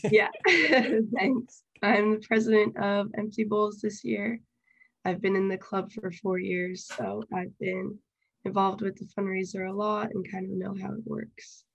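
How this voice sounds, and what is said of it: Voice affected by a cold. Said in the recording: “I have a little bit of a cold, so that's why my voice doesn't sound the best.”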